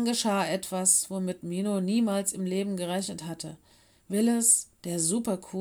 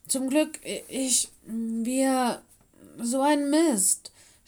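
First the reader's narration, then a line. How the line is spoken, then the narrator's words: Stammering. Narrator (German): stotterte Willis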